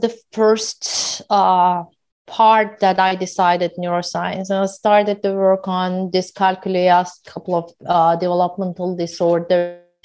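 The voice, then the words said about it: Heavy foreign accent. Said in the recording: “I got a lot of comments about my heavy accent”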